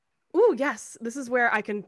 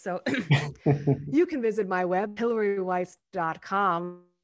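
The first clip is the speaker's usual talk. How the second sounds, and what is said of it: Radio announcer voice. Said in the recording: “put on my radio announcer voice.”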